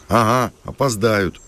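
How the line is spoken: Snorting. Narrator (Russian): хмыкнул Макар

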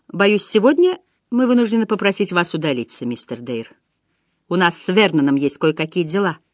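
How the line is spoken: Calm. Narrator (Russian): Няня Фрэнсис спокойно сказала

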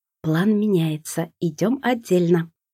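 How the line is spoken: Sister whispering in ear. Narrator (Russian): прошептала мне на ухо сестра

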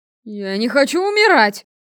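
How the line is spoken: Desperate howl. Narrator (Russian): взвыл Вестин

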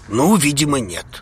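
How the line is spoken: Snorted. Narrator (Russian): хмыкнул Хаул

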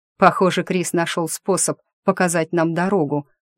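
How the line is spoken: Pleased snort. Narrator (Russian): довольно хмыкнул Дрей

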